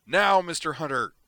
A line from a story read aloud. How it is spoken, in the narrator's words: Griffin roared